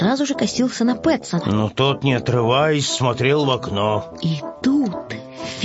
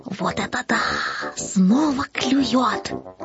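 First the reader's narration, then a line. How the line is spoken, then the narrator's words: Kitten whispering excitedly. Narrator (Russian): Каждый раз, когда что-то попадалось на крючок, котенок шептал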